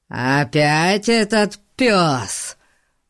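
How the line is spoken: Roaring. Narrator (Russian): Взревел он

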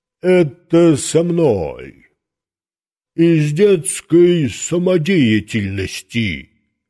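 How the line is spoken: Deep bass voice. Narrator (Russian): пробасил Жора

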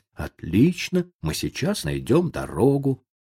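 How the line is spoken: Fearful, uneasy reassurance. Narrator (Russian): страх начал закрадываться в его душу, и его успокоительные слова звучали далеко не спокойно

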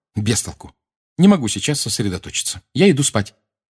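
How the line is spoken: Irritated. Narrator (Russian): Гермиона раздраженно сказала

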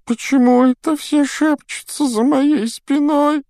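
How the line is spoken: Whining. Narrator (Russian): захныкала Миртл

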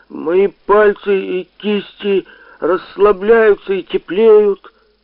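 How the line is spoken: Loud, dreamlike. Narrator (Russian): я не выдержал и как бы во сне, но громко произнес

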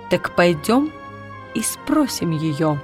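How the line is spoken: Plain. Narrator (Russian): сказала она

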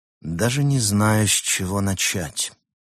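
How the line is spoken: Sighing confession. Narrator (Russian): вздохнув, признался Лис

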